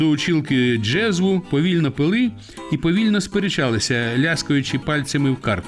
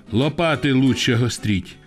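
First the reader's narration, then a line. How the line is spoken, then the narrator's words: Gentle reply. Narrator (Ukrainian): лагідно відповідав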